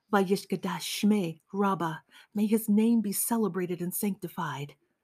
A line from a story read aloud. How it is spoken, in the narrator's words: whispered my father